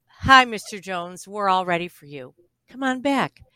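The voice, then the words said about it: Lowered, soft friendly voice. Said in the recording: “lower my voice.”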